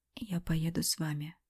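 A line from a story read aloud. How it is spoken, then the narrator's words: Whispered. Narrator (Russian): прошептала я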